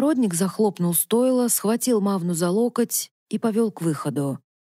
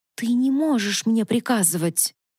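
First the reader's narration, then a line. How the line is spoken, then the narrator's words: Offended hiss. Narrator (Russian): Мавна зашипела от обиды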